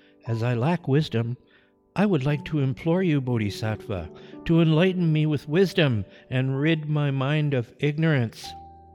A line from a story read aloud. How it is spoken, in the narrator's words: the little monk replied in a sweet and sincere voice